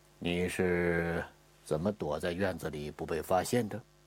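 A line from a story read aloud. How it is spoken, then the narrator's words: Reassuring question. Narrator (Chinese): 吴大成之所以这么问话，实际上是想缓解一下小伙子紧张的情绪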